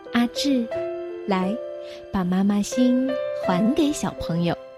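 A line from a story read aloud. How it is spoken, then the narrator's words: Gentle teacher. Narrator (Chinese): 老师都要更温柔的说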